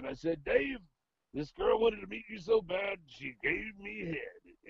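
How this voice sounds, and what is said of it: Imitates another person's voice. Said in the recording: “You sound just like him. ... I'm good at doing an impression ... I do a good impression of him ... that's the accuracy”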